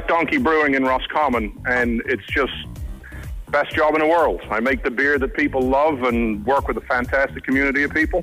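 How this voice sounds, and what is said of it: Irish Drogheda accent, New York-tinged. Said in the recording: “you've got a gorgeous voice ... It's not a Roscommon accent ... It's actually Drogheda accent with 20 years in New York ... you've a great radio voice”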